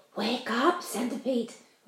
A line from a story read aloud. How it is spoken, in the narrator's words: whispered James